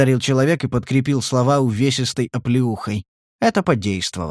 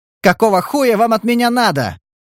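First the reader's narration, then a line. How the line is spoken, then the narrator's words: Convulsing yell. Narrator (Russian): заорал Стас, все еще подергиваясь от спазмов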